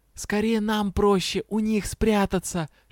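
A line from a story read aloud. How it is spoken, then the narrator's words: Whispered. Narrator (Russian): шепнула я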